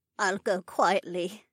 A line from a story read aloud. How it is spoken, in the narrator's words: the older woman said sadly